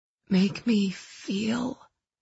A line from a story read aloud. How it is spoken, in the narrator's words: I whispered